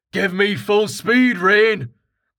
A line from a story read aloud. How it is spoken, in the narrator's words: Karten shouted